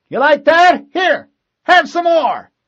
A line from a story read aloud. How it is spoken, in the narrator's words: Marine Fitzgerald shouted